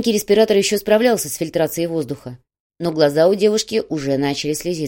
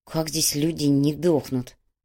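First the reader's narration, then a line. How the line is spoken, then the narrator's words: Through gritted teeth. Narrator (Russian): процедила Майя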